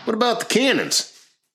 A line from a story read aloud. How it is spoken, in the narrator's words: yelled Tyler in excitement